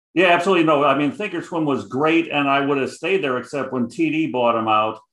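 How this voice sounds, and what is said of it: Heavy Chicago accent. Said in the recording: “I got the Chicago accent heavy”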